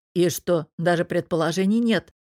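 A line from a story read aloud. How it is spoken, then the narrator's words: Gloomy grumble. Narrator (Russian): мрачно проворчал Мирон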